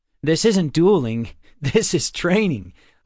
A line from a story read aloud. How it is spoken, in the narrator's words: Lupo laughed